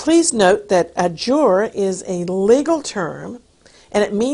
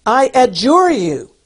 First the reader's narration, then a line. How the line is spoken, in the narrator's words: In a loud voice he demanded